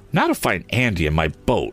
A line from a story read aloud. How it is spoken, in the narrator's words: Tom exclaimed